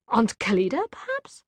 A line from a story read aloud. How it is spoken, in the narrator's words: She said in a puzzled voice